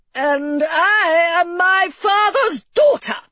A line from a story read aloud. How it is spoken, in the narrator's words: Mary replied hotly